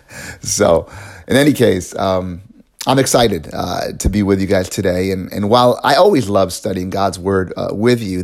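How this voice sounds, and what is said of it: Raspy, hoarse voice. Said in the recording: “I've been having a little bit of a difficulty with my throat in the last few days. I've been dealing with a cold ... this raspy voice”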